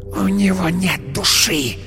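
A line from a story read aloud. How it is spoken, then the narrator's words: Hiss. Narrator (Russian): прошипела она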